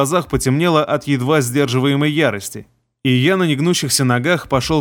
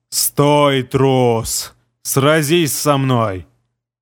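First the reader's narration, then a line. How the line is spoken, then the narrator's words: Growled in unrecognizable voice. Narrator (Russian): Прорычал я не своим голосом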